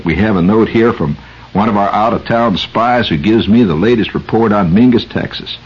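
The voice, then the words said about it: Put-on small-town Texas accent. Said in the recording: “I'm going to fall into my Mingus, Texas accent.”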